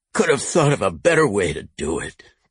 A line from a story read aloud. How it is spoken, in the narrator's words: Court grumbled from the back seat